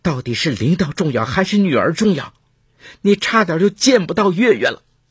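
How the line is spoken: Tired, furious voice. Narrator (Chinese): 刘晶晶疲惫的声音愤怒无比

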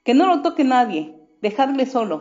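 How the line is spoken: Shouting. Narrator (Spanish): gritó uno

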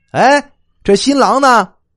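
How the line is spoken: A shout. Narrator (Chinese): 有人喊了一声

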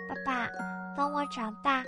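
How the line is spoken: Sleepy child murmuring. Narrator (Chinese): 在半睡半醒中，小贝蒂喃喃低语

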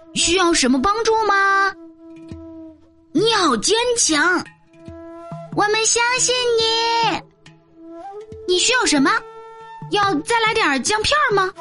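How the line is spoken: Distant calling voice. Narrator (Chinese): 树的另一边也传来了人的呼喊声

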